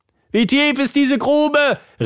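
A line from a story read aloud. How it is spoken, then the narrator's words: Calling out while falling. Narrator (German): rief sie, während sie fielen und fielen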